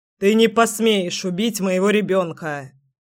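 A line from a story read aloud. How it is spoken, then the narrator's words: Barked. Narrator (Russian): рявкнул Кирилл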